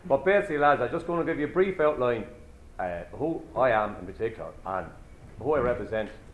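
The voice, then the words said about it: Strong Waterford Irish accent. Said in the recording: “if the Waterford accent is too strong, and you don't understand any part of it”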